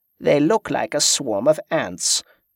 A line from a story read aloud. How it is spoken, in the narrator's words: chuckled